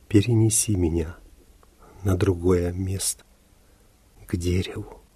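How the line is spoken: Faint whisper. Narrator (Russian): ее губы едва зашевелились и прошептали

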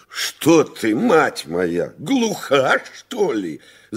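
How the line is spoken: Countess shouting. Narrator (Russian): закричала графиня

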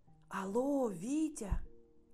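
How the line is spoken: Mother whispering. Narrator (Russian): сказала мама шепотом

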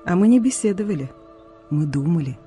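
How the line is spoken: Calm smiling grandmother. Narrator (Russian): спокойно улыбаясь, ответила бабушка

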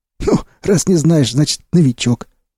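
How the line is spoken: Smirking. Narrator (Russian): усмехнулся перебинтованный Сиплый

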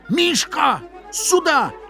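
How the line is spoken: Sudden strained shout. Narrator (Russian): крикнул он вдруг не своим голосом

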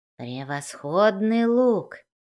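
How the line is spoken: Dwarf muttering. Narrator (Russian): пробормотал дворф

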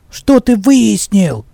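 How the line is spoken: Angry goblin question. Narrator (Russian): сердито переспросил гоблин

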